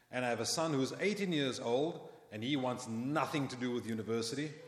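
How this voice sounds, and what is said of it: South African accent. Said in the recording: “You've probably picked up from my accent that I'm not Canadian. ... We are both Sharon and I from South Africa.”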